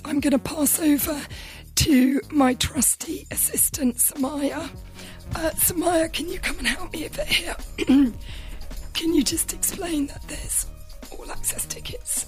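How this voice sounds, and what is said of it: Hoarse, fading voice. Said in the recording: “I'm really losing my voice. ... apologies for my voice.”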